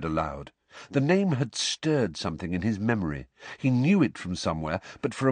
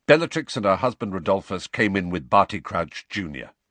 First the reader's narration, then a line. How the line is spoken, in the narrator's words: said Sirius in the same brusque voice